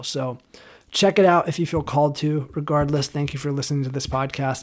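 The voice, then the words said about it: Slightly hoarse voice. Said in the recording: “My voice is starting to get hoarse.”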